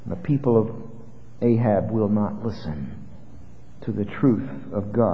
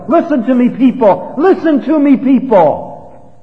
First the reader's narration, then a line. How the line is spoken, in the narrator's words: he's still yelling